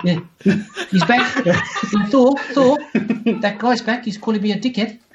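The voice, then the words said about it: Impression of Korg. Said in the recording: “You guys do that impression so well. I can't even. That was perfect.”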